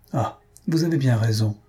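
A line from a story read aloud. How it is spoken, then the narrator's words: Couple exclaiming together. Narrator (French): s'écrièrent les deux époux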